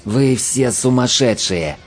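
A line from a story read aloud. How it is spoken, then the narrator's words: Hissing. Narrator (Russian): прошипел Лабок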